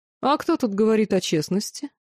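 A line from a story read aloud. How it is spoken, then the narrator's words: Mocking question. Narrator (Russian): насмешливо поинтересовался принц Хаоса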